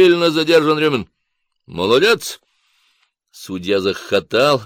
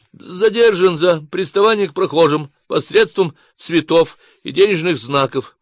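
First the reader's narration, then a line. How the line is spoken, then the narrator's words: Babbling mumble. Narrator (Russian): пролепетал Рюмин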